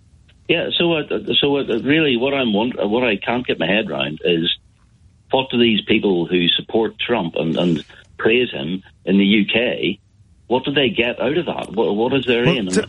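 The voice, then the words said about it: Charming regional accent. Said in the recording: “in a charming accent.”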